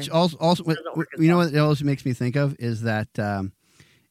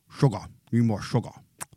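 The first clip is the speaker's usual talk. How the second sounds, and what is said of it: Poor imitation of alien character voice. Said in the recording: “That was just a very poor impersonation of that character.”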